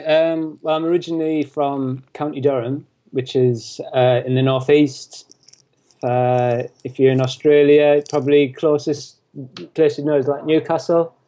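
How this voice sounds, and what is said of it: British accent, not from London. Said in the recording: “you can tell from your accent that you're not from London, but you're definitely from the UK”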